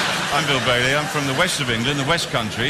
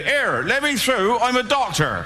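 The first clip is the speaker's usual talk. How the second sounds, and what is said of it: Put-on West Country English accent. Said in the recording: “West Country accent”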